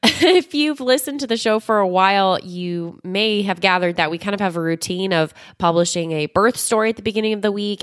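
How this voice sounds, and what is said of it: Hoarse, congested sick voice. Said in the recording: “my voice sounds a little bit different... I have a little bit of a cold... my extra super sultry, sexy, sick voice”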